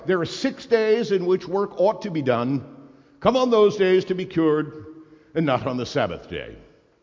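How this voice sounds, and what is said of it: Pompous Anglican-style accent. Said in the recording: “my accent always becomes Anglican when I'm being pompous.”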